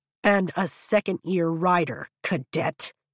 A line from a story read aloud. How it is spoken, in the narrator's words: he growls